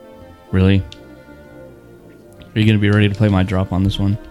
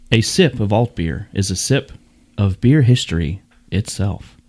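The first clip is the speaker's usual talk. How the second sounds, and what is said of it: Mock public-radio announcer voice. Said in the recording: “I'll try to say it in my, ... my NPR voice.”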